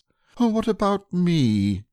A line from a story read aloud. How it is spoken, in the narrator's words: said Pooh sadly